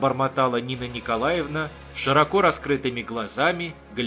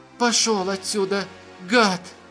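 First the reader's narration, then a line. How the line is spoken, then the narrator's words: Hoarse, trembling, crying. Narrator (Russian): прохрипела Нина Николаевна, трясясь и плача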